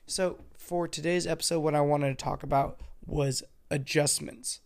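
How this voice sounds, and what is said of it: Congested voice from a cold. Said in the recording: “my voice sounds stupid, I'm sorry. I have a cold, definitely, and I'm a little congested”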